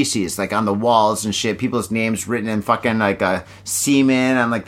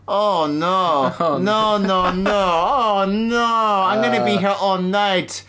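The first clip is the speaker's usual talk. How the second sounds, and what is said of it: Bad put-on accent. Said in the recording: “bad accent.”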